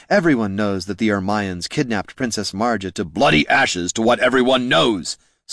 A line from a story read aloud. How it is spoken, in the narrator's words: snapped Jin